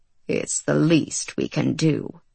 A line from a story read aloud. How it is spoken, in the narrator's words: Marvel muttered